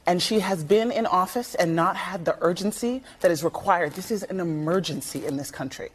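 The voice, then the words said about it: Emotional, choked-up voice. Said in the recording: “I'm sorry I'm getting emotional”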